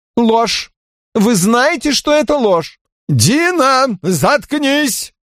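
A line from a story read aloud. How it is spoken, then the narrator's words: Shouting. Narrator (Russian): закричал Доминика Росси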